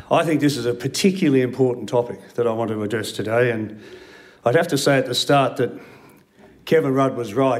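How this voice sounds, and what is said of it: Sick, flu-affected voice. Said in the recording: “I have the flu, obviously, today ... my voice might fade.”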